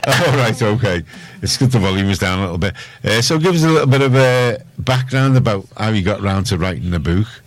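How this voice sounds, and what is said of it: Scouse accent. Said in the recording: “It's a Scouse accent.”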